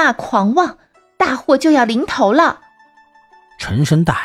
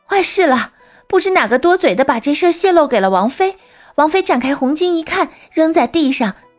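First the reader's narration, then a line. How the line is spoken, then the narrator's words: Breathless. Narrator (Chinese): 女子忽然气喘吁吁的…说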